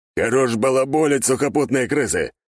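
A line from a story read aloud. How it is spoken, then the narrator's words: Barking. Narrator (Russian): рявкнул старпом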